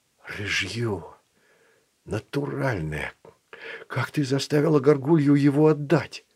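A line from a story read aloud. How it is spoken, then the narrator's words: Whisper. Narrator (Russian): прошептал Филат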